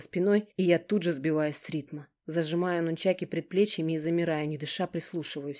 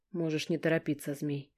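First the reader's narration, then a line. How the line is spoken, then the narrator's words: Quiet muttering. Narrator (Russian): тихо ворчу себе под нос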